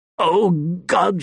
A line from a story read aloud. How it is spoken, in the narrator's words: he said, choking on his laughter